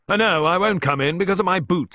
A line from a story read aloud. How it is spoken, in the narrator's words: explained with a hearty laugh